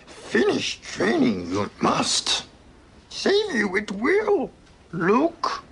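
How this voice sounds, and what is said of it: Bad Yoda character impression. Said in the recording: “that rather bad Yoda impression”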